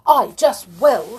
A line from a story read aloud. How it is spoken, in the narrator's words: shouted Amelia, quite losing her temper